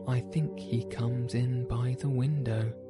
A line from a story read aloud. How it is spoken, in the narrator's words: she said